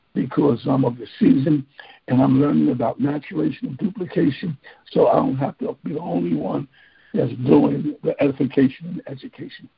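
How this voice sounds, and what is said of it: Weary, tired voice. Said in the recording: “As you can hear, my voice is a little weary.”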